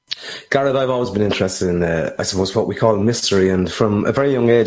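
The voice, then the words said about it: Irish accent. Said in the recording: “he joins us today live from Ireland ... We all love the accent”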